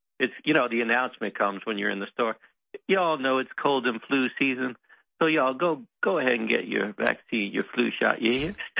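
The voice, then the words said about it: Put-on Southern American accent. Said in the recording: “the pretty Southern accent ... Like you hear the southern voice.”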